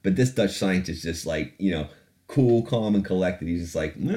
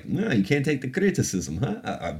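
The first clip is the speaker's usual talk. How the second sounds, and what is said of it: Unconvincing put-on Russian accent. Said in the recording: “I don't know why I did a Russian accent ... I don't know what that accent was either”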